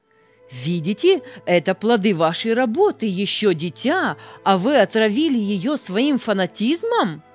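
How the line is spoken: Irritated, angry shout. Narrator (Russian): В раздражении он обратился к пресвитеру и с гневом закричал

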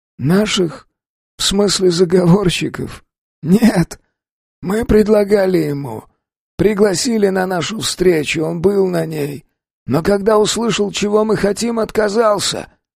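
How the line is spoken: Hoarse rasp. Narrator (Russian): хрипит Птахин

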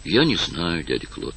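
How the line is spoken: Barely audible. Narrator (Russian): ответил он чуть слышно

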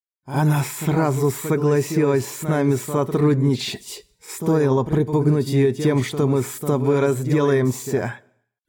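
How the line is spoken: Hissed. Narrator (Russian): прошипел Раззак

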